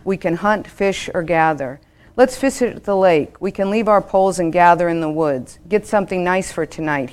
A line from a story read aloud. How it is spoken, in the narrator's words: he says